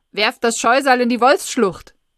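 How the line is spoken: Loudspeaker announcement. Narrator (German): Der Lautsprecher ruft's

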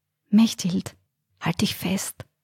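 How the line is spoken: Whispered. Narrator (German): flüsterte Alfred

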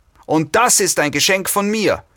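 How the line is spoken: Woman shouting. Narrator (German): schrie die Frau

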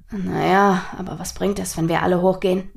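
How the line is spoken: Quiet question after pause. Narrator (German): fragte Nathaniel nach einer Weile leise

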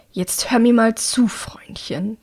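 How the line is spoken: Hissing. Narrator (German): zischt er

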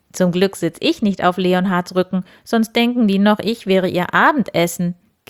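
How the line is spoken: Giggling. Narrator (German): kicherte Wildi

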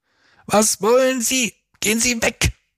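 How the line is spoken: Shouted. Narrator (German): schrie Silvio

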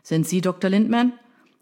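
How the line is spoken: Shouting over pouring rain. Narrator (German): rief er ihr im tosenden Regen entgegen, um das Rufgewitter der Reporter zu übertönen

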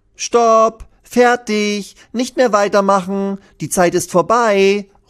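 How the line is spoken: Calling out. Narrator (German): ruft Lilly

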